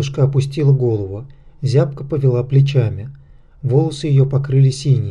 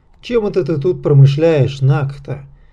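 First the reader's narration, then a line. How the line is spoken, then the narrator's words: Mocking. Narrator (Russian): насмешливо спросил Морок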